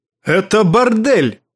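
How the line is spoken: Barking angrily. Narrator (Russian): рявкнул он

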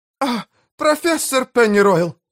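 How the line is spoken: Shrill squeal. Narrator (Russian): взвизгнула мисс Пай

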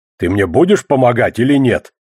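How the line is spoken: Snorting. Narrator (Russian): хмыкнул одноглазый

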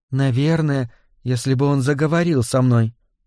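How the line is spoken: Timid reply. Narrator (Russian): робко ответила она

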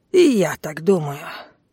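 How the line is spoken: Grumbling. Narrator (Russian): проворчал он

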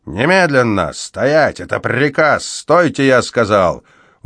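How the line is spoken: Barking, snarling. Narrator (Russian): Он напоминал лающего и рычащего терьера

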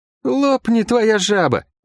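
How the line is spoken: Emboldened, glad exclamation. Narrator (Russian): воскликнул расхрабрившийся и обрадованный возможной встречей с ходящими Лук

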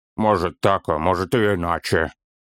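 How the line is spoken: Gruff mutter. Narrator (Russian): буркнул Торин

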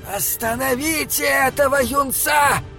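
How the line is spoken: Shouting. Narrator (Russian): крикнул Прейрец

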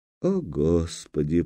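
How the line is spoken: Dazed whisper. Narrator (Russian): прошептала она, снова приходя в себя

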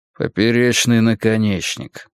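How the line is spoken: Grumbling. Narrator (Russian): проворчал он

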